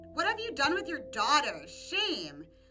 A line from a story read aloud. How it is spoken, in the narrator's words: The jealous women of the kingdom all mocked her and shouted